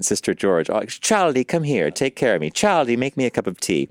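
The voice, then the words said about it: Older British accent. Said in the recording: “the older British accent”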